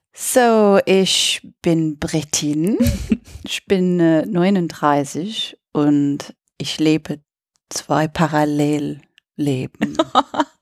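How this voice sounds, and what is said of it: Charming foreign accent in German. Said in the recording (German): “deinen ganz charmanten Akzent”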